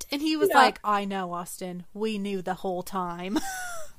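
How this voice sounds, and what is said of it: Bad put-on English accent. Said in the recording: “forgive my English accent... Holy moly, that was so bad”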